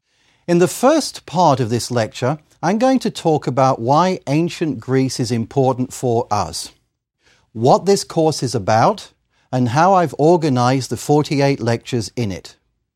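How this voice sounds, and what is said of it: Faint northern English-Australian accent. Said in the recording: “born and raised in northern England, close to Manchester ... moving to Australia ... most traces of an English or Australian accent have pretty much gone ... the vowels still give me away”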